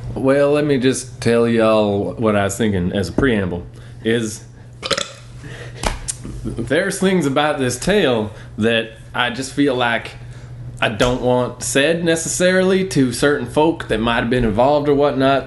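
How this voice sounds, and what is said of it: Exaggerated fake southern drawl. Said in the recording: “Can you tell your story in a southern drawl? ... Fake as hell. ... Southern drawl.”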